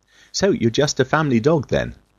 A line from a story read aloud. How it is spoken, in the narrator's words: scoffed the smallest of the three